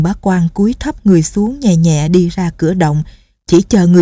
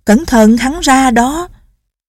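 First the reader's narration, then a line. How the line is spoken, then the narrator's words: Shouted warning. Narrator (Vietnamese): đệ tử la lên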